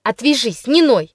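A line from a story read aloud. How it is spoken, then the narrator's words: Sharp scolding shout. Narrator (Russian): прикрикнула на меня горбунья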